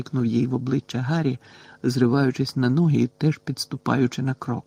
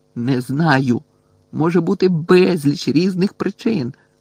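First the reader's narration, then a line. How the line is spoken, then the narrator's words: Angry shout. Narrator (Ukrainian): закричав на неї Гаррі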